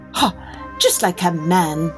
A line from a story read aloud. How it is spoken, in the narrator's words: scoffed the princess when she realized what he had done